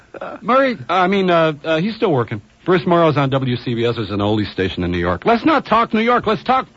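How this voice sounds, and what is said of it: Usual voice. Nothing is said of it.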